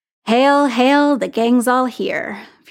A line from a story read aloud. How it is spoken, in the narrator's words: Fury said, his voice sardonic